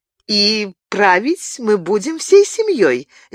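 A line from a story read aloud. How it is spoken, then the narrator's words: Cheerful. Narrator (Russian): весело добавила Мария Стюарт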